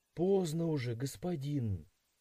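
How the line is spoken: Quiet remark. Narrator (Russian): тихо заметила Тальве

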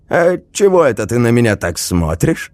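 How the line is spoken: Snort. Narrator (Russian): хмыкнул тот

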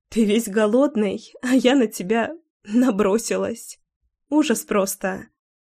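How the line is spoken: Quiet girlish giggle. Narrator (Russian): Тихонько хихикала девчонка

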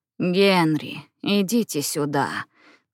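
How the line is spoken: Crushed, despairing voice. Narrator (Russian): сказала она убитым голосом

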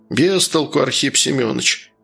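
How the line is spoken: Gloomy curt remark. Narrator (Russian): мрачно бросил Василий

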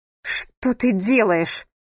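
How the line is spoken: Barked. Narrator (Russian): рявкнула она

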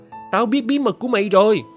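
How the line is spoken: Loud shout. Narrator (Vietnamese): Tôi hét to

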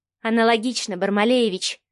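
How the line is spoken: Sighing. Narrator (Russian): вздохнула Марианна

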